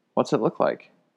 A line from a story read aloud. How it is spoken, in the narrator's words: said